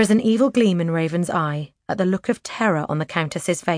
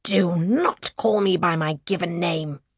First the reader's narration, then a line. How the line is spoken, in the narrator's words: the Countess snarls